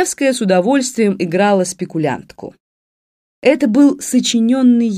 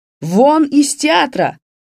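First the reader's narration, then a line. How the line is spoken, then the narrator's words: Shouting master. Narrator (Russian): крикнул мэтр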